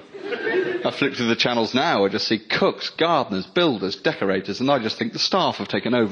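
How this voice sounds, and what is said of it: Posh English male accent. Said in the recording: “I don't want this voice... posh male, it's just sinister”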